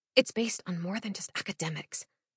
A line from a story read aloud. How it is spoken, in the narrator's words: quietly remind